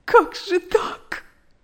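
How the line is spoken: Sobbing. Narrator (Russian): рыдала

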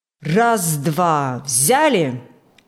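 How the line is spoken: Loud measured command. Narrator (Russian): Громко и размеренно командовал бригадир Иван Фокт

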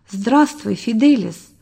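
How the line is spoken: Gentle, to a boy. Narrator (Russian): ласково сказал он мальчику

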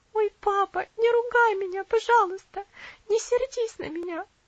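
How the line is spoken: Sobbing girl. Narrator (Russian): всхлипнула девочка

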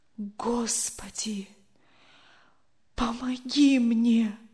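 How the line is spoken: Whisper. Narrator (Russian): прошептал он наконец

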